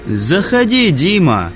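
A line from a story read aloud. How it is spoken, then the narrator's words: Loud invitation. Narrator (Russian): пригласил Лайк громко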